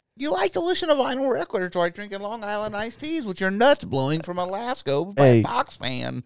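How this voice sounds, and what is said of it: Imitates another person's voice. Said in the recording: “That's like your best impression, bro. ... You're pretty close.”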